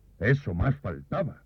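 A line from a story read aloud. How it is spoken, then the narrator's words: Annoyed exclamation. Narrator (Spanish): exclamé algo molesto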